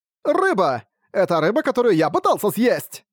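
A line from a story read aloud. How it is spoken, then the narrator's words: Shout. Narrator (Russian): закричал Рокард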